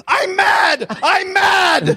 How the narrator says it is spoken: Powell ran out of the house yelling

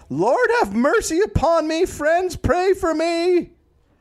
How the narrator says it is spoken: She screamed

